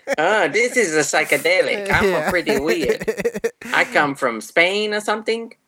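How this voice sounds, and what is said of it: Put-on Spanish accent. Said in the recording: “Is that a good Spanish accent? ... Yeah, that's it.”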